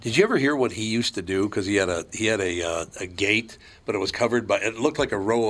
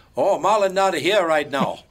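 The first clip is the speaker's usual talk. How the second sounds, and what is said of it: Fake made-up foreign accent. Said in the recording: “do this fake accent that he made ... You do this fake made-up accent. It's like what country is that supposed to be? ... Just the Japanese, Peruvian, Spanish kind of accent”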